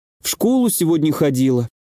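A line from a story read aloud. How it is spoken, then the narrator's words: Bitter sigh, girl. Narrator (Russian): горько вздохнула девочка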